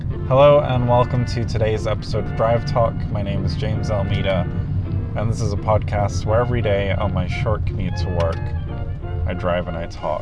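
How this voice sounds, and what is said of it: Sore, strained voice. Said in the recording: “as you guys can probably hear by my voice, it's a little sore this morning”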